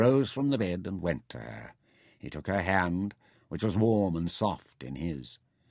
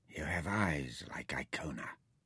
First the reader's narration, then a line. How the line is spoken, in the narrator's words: he whispered